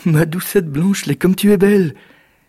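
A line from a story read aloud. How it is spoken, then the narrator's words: Exclaiming. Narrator (French): s'exclama Jack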